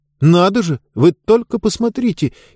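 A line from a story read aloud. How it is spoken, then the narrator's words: Frightened exclamation. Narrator (Russian): испуганно воскликнул Хэмми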